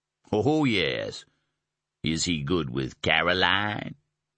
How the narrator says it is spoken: His laugh boomed out again at her blush

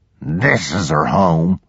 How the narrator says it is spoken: Willis growled

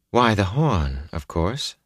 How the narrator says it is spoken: she said calmly

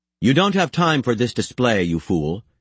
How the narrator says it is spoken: he said in a severe tone

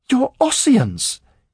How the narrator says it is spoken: he cried, appalled

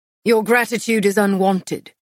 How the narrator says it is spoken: Castile snapped

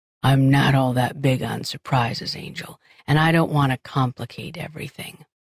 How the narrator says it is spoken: he said quietly

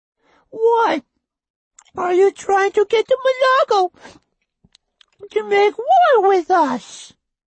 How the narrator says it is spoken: she asked in her squeaky, annoying voice

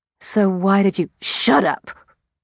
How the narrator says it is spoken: she hissed

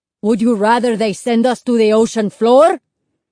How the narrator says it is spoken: Lito yelled

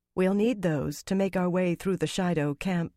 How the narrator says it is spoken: Fael said gently

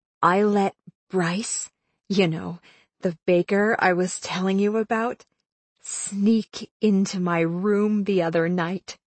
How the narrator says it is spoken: she whispered

